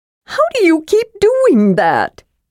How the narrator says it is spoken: Tasselhoff wailed

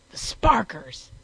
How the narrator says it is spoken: roared

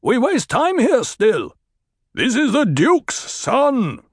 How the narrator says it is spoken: Stilgar barked

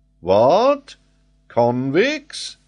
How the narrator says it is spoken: cried Paganel

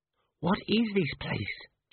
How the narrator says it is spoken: Cheery whispered

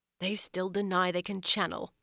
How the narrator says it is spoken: Elise muttered

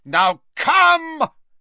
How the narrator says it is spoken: he shouted

